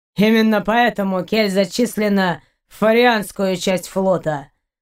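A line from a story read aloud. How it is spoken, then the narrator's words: Grim snarl. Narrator (Russian): мрачно оскалился Шейн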